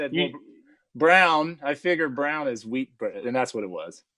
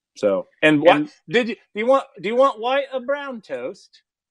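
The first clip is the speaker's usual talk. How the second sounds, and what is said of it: Put-on British accent. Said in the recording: “I love the accent. It's amazing. You went from bloke, which I'm thinking is Australia, to the British accent.”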